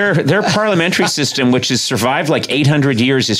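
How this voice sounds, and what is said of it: Usual voice. Nothing is said of it.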